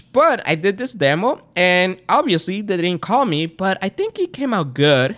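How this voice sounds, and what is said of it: Latino Spanish-speaker's accent. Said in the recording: “I'm Spanish. Not from Spain. I'm actually Latino. I speak Spanish. That's why you hear the accent. ... My first language is Spanish”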